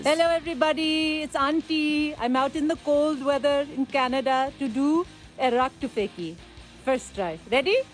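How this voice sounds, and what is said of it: Put-on character accent, auntie voice. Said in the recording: “I had created the character Auntie some time ago in improv ... disciplining my children with that accent.”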